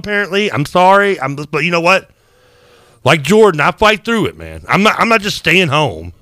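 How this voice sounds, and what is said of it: Congested voice, audible heavy breathing. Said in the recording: “I can hear you inhaling every breath through the mic. It's very prevalent ... I've got a little bit of a cold.”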